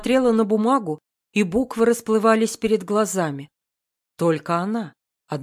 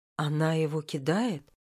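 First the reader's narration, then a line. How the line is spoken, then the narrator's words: Whisper. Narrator (Russian): прошептала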